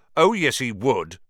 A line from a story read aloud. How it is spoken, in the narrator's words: said Ron, even more loudly than Dean